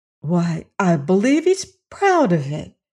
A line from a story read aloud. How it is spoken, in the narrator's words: exclaimed Dorothy